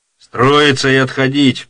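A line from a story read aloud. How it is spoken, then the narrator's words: Captain shouting. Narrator (Russian): прокричал капитан Батурин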